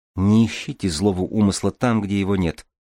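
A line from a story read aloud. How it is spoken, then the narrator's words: Quiet. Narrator (Russian): тихо сказала Купава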